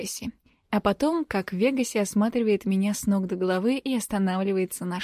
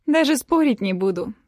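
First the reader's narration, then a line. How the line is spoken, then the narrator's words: Laughing. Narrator (Russian): смеясь, говорю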